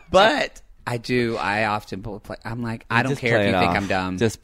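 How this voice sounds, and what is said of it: Southern American accent. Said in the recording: “Especially being like Southern with my accent”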